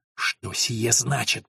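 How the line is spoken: Hissing. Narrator (Russian): прошипел он

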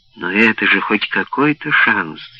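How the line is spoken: Furious exclamation. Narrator (Russian): яростно воскликнул Халлик

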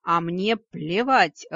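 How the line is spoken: Low growling snap. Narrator (Russian): огрызнулся низкий рычащий тембр

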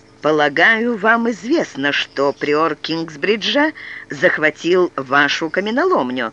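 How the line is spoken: Plain. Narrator (Russian): сказал Уоллеран

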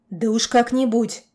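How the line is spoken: Curt grumble. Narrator (Russian): буркнул

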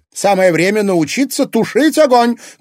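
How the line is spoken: Shouting. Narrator (Russian): крикнула Елена Федоровна

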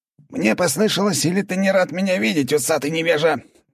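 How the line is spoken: Squeaky voice. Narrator (Russian): пропищал Валера

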